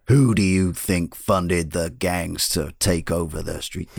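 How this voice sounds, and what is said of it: Imitates another person's voice. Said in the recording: “is a pretty good impression... Wasn't that pretty bang on?”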